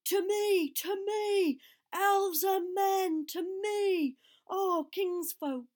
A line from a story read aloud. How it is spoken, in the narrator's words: he cried, and his voice shook like a horn in the valley